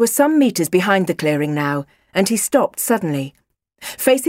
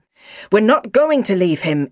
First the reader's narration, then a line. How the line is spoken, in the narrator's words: exclaimed the doctor